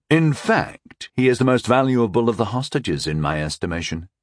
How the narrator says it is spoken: I said smoothly

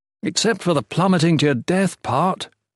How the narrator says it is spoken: Volney whined

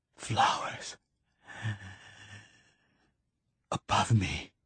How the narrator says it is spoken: whispered Keats, between his efforts to breathe

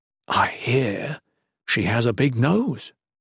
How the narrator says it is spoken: he whispered

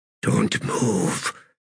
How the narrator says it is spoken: came Quick Ben's whisper

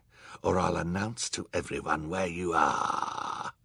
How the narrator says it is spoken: he whispered threateningly

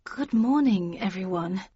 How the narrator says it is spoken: began Libris in a nervous voice

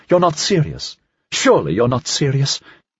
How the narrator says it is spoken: Beaudry answered sharply

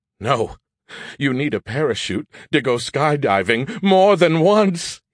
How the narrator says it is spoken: he laughed

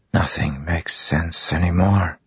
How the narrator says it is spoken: Zeth whispered

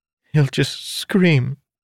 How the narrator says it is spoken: said between sobs

